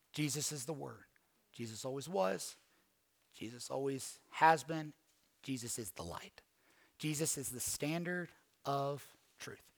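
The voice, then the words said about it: Southern American twang. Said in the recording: “some random dude from Georgia ... your southern twang”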